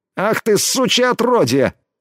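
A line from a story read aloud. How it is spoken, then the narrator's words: Groaning in pain. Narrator (Russian): Застонал от боли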